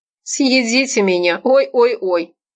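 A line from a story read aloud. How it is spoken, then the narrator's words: Mocking singsong. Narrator (Russian): насмешливо пропел тот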